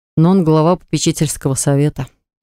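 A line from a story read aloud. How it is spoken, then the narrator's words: Sigh. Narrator (Russian): вздохнул Скайн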